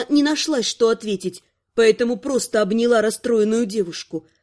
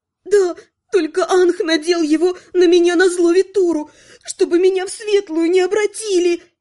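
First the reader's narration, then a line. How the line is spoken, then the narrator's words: Forced out through tears. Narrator (Russian): Выдавила Наташа сквозь слезы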